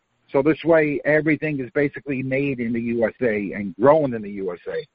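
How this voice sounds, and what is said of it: Queens New York accent. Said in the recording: “you're not from Florida from your accent ... I was born and raised in Queens, New York ... It's one of those accents”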